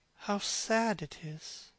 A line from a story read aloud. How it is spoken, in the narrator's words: murmured Dorian Gray